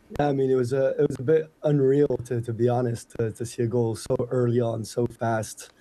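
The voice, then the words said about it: Worn-out, strained voice. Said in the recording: “I was too busy, you know, chanting, screaming, as you can hear by my voice. I gave it all yesterday.”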